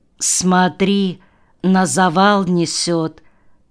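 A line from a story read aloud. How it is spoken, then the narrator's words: Calm warning. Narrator (Russian): спокойно предупредил Сашка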